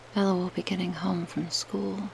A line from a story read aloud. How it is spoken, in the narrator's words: from behind me, her voice said darkly